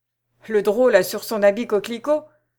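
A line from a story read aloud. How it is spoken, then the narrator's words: Exclaimed. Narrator (French): s'écria un troisième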